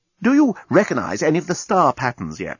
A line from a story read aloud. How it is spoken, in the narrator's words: asked the navigational officer anxiously